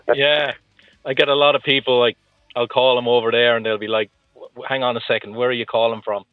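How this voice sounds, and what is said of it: Irish accent. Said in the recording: “Where's your accent originally from, then?... Waterford in Southern Ireland... Irish”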